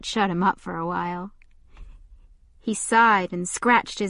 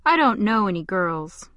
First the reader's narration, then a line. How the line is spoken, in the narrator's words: said in a flat voice